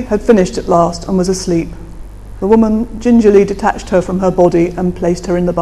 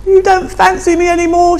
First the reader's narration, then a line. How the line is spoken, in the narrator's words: wailed in a last-ditch attempt to hold him